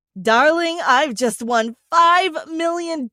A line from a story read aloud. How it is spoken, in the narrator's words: he screamed